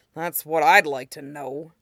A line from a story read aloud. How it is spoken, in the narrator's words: the guard grumbled